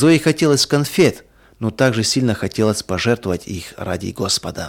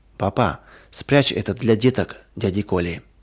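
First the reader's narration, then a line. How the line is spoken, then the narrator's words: Whisper. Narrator (Russian): Зоя прошептала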